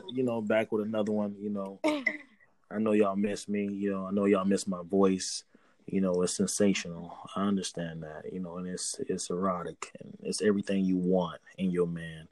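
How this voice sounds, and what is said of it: Put-on sexy voice. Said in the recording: “is this your sexy voice? ... Because it's not. It ain't working. It ain't it. It's a no.”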